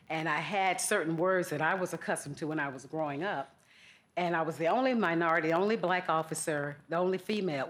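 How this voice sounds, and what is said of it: Southern American accent. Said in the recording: “I grew up in Georgia, if you haven't picked up on my Southern accent.”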